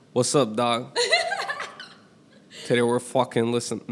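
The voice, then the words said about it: Put-on street slang accent, poorly done. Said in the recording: “can you do it as a homie? ... That was not good. No.”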